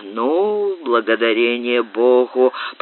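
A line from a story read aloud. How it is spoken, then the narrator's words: Grumbling. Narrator (Russian): проворчал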